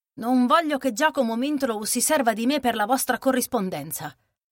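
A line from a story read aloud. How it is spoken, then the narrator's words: Curt firm tone. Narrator (Italian): disse in tono reciso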